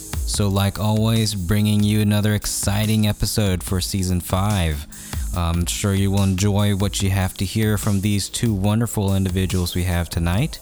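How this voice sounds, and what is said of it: Hoarse, gravelly voice. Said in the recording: “I do sound a bit hoarse or gravely even for this episode ... I was a bit down with a cold”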